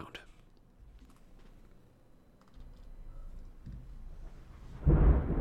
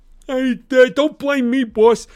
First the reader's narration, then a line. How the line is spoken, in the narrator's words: he pleaded